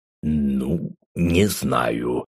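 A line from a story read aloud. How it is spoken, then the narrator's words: Doubtful drawl. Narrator (Russian): сомнением протянул Рустам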